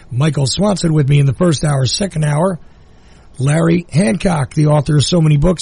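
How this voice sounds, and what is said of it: Weak, sore-throated voice. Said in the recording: “my voice is still a little weak ... Sore throats are sore throats”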